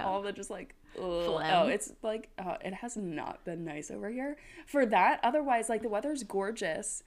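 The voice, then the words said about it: Congested, odd-sounding voice. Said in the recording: “dealing with like allergies or something. So if you hear something weird in my voice right now, yes, my voice is weird ... I like tried to like blow my nose a million times”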